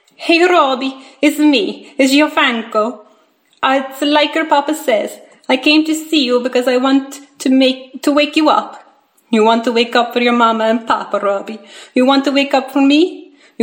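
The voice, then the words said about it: Italian-accented male character voice. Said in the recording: “his Italian accent”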